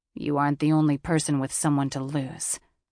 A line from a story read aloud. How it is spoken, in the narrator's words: Daxon growled